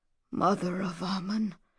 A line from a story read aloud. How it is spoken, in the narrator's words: whispered the captain